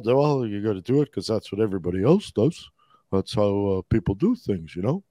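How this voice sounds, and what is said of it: Imitates an older boomer-style voice. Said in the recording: “that your boomer impression ... A little boomer in there”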